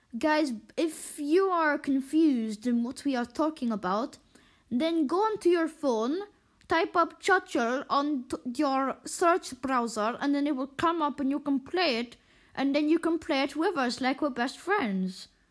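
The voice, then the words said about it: Bad put-on German accent. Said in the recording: “you speak in this horrible kind of German accent.”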